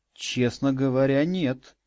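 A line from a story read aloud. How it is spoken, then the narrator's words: Confused mumble. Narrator (Russian): растерянно пробормотал я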